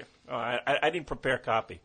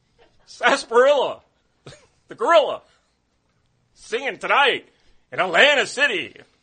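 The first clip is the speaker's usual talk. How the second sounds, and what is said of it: Imitates another person's voice. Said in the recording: “I want to hear your Dudio impression.”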